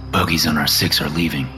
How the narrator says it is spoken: Arkle whispers

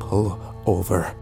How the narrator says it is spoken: I said quietly

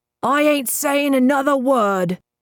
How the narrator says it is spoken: Krill shouted

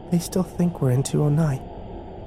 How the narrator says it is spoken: Kimber whispered

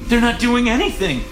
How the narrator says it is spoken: she gasped

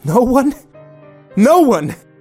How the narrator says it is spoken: yelled

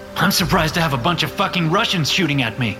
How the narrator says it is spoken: I shout

